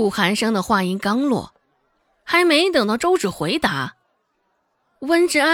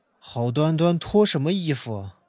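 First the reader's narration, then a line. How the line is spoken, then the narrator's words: Deep, grave voice. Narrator (Chinese): 顾寒生清了清嗓子，沉声道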